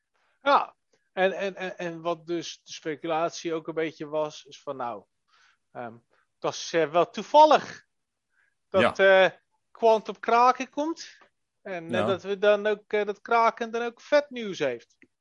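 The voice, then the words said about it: Funny put-on Amsterdam accent. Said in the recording (Dutch): “ik doe dit een beetje met een grappig Amsterdamse accentstemmetje”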